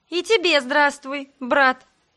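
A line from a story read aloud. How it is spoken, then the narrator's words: Repeated greeting. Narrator (Russian): Повторила я его приветствие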